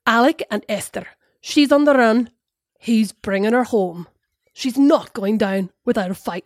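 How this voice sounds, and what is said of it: Put-on Scottish accent drifting Northern Irish. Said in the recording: “could you give us a bit of a Scottish accent there? ... I went Northern Irish then in the end.”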